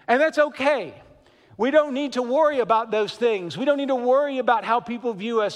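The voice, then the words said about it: Kentucky-sounding American accent. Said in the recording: “people hear my accent ... I sound like I'm from Kentucky or something”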